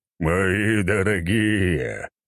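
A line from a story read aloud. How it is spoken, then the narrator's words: Booming bass voice. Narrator (Russian): басом прогремел князь Толстой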